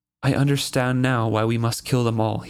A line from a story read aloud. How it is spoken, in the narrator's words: he said calmly